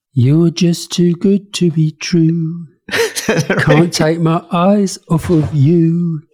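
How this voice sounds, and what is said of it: Sung imitation of another person's voice. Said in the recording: “Try to sing it for us in a Priti Patel accent”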